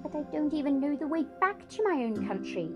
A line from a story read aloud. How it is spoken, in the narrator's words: pleaded Edmund